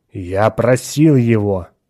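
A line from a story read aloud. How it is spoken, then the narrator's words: Angry. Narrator (Russian): сердито продолжал Атон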